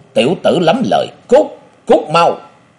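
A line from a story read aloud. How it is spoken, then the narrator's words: Big man roaring. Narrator (Vietnamese): Tên cao lớn ấy gầm lớn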